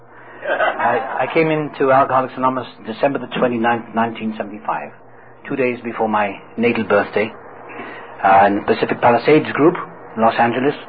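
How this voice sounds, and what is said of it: Noticeable non-local accent, slow speech. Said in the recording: “I'll try and speak slowly because I've got a funny accent.”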